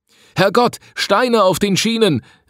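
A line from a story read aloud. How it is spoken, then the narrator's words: Calling out. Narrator (German): rief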